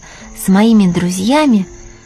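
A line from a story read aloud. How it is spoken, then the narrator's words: Joyful. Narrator (Russian): радостно сказал Пушок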